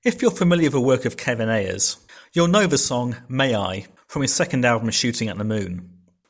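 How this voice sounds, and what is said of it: British accent. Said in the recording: “he's from the UK, because as you will hear by his accent”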